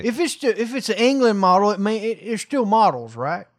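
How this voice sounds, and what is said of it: Put-on accent drifting into Southern. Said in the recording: “I don't know what exact accent you started with, but you ended with Southern. Respect.”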